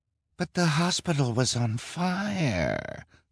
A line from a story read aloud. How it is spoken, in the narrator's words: the woman whined